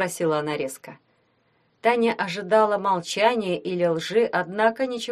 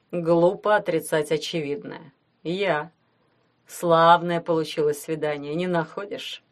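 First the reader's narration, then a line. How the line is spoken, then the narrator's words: Calm question. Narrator (Russian): спросил он спокойно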